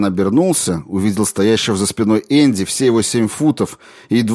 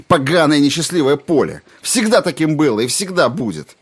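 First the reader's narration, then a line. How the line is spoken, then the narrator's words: Shout. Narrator (Russian): Тиан закричал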